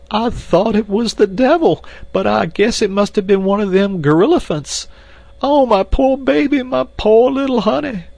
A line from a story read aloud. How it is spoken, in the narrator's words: Esmeralda broke into uncontrollable sobbing